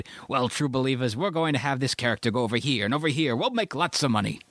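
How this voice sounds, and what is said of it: Modified Gilbert Gottfried-like voice. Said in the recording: “you're sounding like a modified Gilbert Gottfried there”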